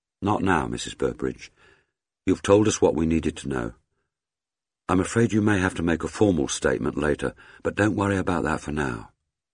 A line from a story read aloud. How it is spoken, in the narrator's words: Kate said gently